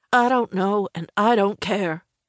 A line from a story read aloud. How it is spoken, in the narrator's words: told him in a cold voice